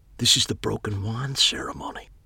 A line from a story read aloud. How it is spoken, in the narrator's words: I whispered to Megan